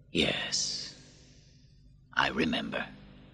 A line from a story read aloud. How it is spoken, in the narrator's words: Marcus softly said